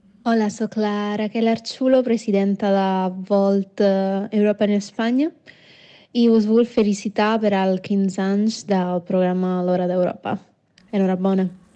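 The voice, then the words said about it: Italian accent. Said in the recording (Catalan): “Aquell accent italià, eh?”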